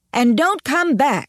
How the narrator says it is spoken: shouted

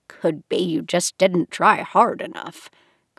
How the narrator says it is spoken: Granny muttered to herself

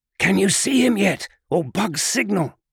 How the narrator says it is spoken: Locke hissed his question as lightly as he could

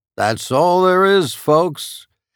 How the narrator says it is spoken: a man's voice boomed over a loudspeaker

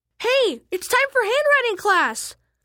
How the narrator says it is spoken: I screamed

